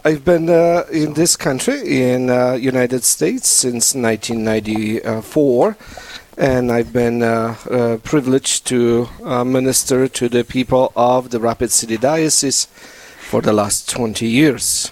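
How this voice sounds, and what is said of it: Polish accent. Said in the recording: “my beautiful Polish accent, I'm Polish, and this beautiful accent”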